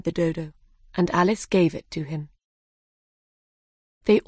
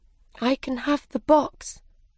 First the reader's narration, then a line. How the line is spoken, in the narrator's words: said Alice sadly